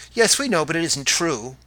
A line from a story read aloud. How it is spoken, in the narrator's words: they cried